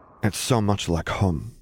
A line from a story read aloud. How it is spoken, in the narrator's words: Luke murmured back, still smiling wide